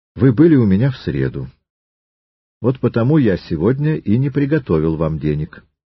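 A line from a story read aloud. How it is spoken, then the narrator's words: Calm reply. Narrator (Russian): Триродов также спокойно ответил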